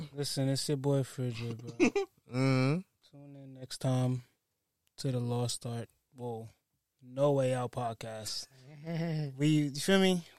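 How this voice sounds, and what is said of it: Raspy voice. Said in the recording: “You sound a little raspy”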